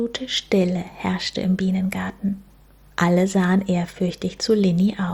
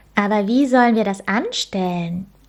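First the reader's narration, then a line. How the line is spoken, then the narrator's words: Called out. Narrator (German): Linis bester Freund Leo … rief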